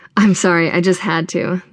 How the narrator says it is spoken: the guy says

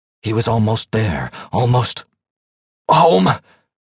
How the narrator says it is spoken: he gasped

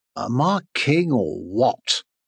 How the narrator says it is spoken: After eating, purred

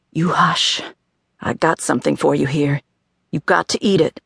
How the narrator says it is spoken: She whispered

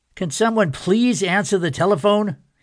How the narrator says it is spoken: yelled

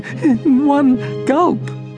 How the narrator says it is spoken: cried Harold

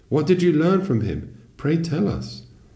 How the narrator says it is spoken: Some sages called out

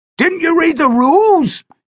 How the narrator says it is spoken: He bellowed

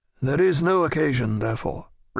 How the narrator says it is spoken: replied the Comte

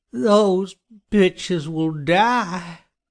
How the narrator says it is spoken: Johnny groaned

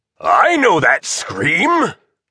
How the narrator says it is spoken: bellowed a gruff but friendly voice

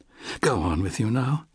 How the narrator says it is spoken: said softly in her British accent

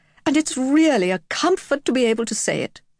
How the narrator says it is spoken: Gareth with a laugh

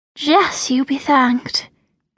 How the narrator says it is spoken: murmured Isabella

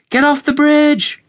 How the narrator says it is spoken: May yelled to the villagers

